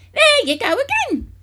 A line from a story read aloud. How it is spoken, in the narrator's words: she cried